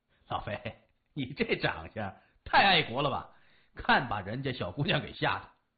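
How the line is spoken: Hearty laugh, teasing. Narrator (Chinese): 高强哈哈一笑，说

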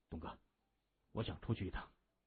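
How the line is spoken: Low voice. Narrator (Chinese): 他低声说

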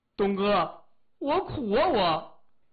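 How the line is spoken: Tearful, agitated. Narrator (Chinese): 李爽哭丧着脸，激动地说

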